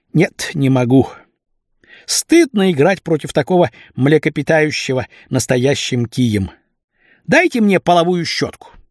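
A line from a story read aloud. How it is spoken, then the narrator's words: Deep sigh, then speaking. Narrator (Russian): основательно вздохнул и сказал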